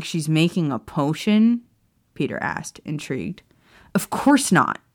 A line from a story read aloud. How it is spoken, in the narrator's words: James snapped